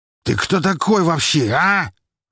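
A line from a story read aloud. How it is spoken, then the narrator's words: Barking. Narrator (Russian): рявкнул он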